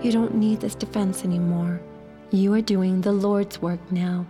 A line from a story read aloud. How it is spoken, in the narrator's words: my friend whisper